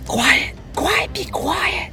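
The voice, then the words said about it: Loud stage whisper. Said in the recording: “You hear whispers from the bottom, like stage whispers almost.”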